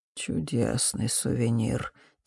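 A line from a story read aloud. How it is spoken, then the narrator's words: Quiet. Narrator (Russian): тихо проговорил Фолькер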